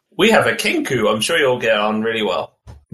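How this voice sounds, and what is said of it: Character voice with southwestern American accent. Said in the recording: “you have a southwestern American accent... You crawled from the swamps of Louisiana”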